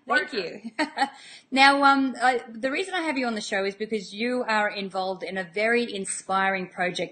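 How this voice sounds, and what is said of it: Speaks with a noticeable accent. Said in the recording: “I love that accent of yours.”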